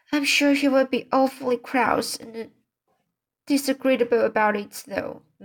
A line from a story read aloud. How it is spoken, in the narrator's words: moaned Anne